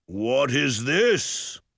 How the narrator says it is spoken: Mulgarath bellowed

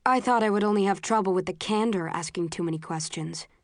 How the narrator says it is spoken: says coldly

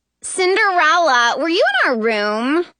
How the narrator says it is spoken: Someone asks in a high nasal voice

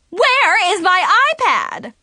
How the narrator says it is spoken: suddenly screamed

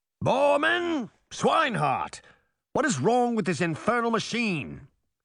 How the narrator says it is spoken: he shouted

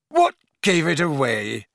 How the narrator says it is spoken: he grunted as he staggered to his feet, still rubbing his lower belly

